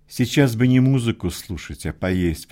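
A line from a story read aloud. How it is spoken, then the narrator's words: Grumbling. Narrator (Russian): проворчал Прантиш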